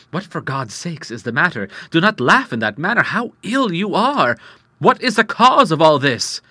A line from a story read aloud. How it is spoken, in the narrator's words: cried